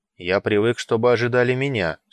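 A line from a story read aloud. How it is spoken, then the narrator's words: Dry, stressing last word. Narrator (Russian): сухо сказал, подчеркнув последнее слово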